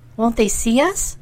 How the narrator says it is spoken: she asked timidly

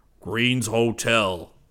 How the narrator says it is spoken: he bellowed

